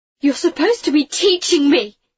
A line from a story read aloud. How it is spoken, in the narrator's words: I shouted